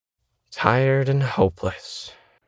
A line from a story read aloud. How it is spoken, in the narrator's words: unconsciously sighed